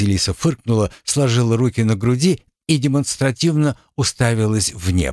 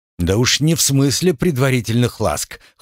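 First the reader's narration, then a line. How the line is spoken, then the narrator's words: Smirking grunt. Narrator (Russian): хмыкнул Михеев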